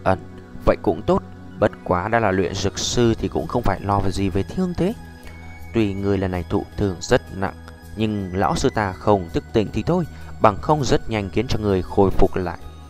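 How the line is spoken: Low voice. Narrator (Vietnamese): Tiêu Viêm thấp giọng nói

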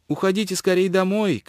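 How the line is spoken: Shouting. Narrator (Russian): крикнула

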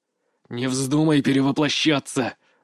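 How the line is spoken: Silent inner growl. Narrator (Russian): рычал я мысленно

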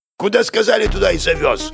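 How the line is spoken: Snapped retort. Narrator (Russian): огрызнулся шофер

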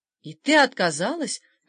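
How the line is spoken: Feigned astonished exclamation. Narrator (Russian): воскликнул Бернар сделанным изумлением

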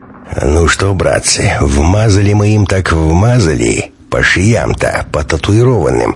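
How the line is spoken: Satisfied deep bass. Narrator (Russian): удовлетворенно басил Прокопыч

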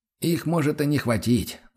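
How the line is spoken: Sigh. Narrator (Russian): вздохнул Сфорца

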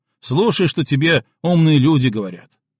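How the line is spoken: Gunner, still angry. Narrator (Russian): все так же зло произнес артиллерист

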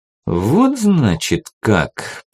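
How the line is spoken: Drawn-out, drawling. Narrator (Russian): протянул я

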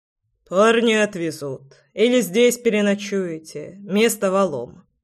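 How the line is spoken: Calm. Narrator (Russian): спокойно произнес Громов

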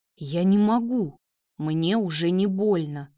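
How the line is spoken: Growling. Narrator (Russian): прорычал Давид

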